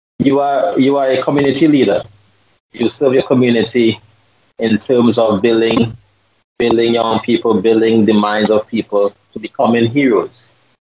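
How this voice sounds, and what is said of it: Slight accent. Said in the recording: “you got a little bit of an accent”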